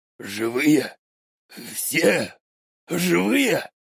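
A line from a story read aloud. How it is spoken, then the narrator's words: Dazed muttering, soldier. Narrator (Russian): В прострации бормотал про себя вояка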